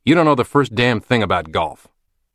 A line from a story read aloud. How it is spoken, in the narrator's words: He angrily snaps back